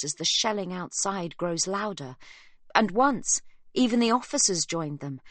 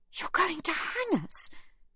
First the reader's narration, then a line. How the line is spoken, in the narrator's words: she gasps